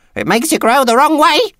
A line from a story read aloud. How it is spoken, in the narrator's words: she snapped